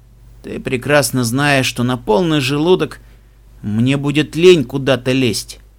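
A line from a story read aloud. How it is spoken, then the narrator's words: Smiling grumble. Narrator (Russian): проворчал Себастьян с улыбкой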